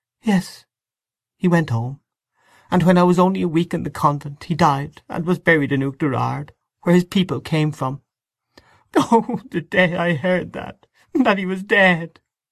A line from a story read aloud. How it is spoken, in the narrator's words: She stopped, choking with sobs, and overcome by emotion, sobbing